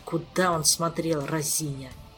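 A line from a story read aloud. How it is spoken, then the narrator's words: Exasperated grumble. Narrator (Russian): В сердцах проворчал Кантор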